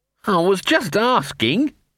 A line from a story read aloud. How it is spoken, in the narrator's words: said Sock in a desperate and distant voice